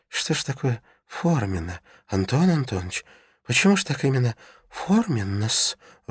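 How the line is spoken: Timid question. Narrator (Russian): робко спросил

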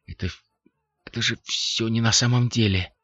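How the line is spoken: Barely audible whisper. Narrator (Russian): прошептал Лафайет еле слышно

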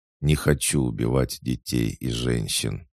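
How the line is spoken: Calm. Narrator (Russian): спокойно ответил я

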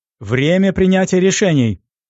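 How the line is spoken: Excited yelling. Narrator (Russian): завопил взволнованный оператор

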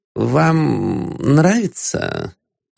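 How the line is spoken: Timid question. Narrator (Russian): робко спросил Ипполит Матвеевич

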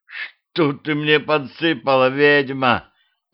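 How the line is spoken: Groaning. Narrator (Russian): простонал я

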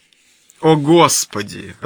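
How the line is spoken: Irritated exclamation. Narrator (Russian): раздраженно восклицает

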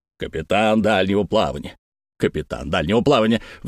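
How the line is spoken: Grumbling. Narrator (Russian): ворчал дядюшка Антифер

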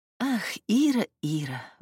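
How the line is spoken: Sighing. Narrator (Russian): вздохнула она

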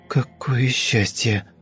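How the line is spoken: Whisper. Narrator (Russian): сказала Света шепотом

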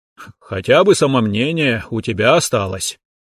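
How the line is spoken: Approving snort. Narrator (Russian): одобрительно хмыкнул Луканг

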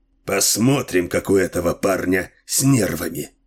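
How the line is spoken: Muttered. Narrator (Russian): пробормотал Дилуло

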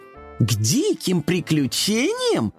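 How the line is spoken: Kittens exclaiming in chorus. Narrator (Russian): хором воскликнули котята

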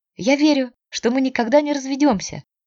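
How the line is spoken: Cheerful. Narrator (Russian): весело говорила она

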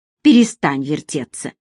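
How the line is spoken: Irritated. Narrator (Russian): раздраженно проговорил Асим

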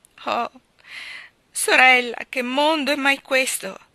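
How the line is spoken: Exclaimed. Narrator (Italian): esclamò

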